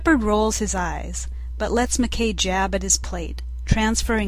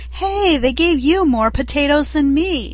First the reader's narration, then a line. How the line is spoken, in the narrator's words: Rodney interrupting and whining